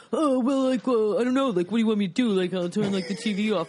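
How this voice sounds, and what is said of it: Imitates a generic guy's voice. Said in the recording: “Mine is this, which is the same for every guy.”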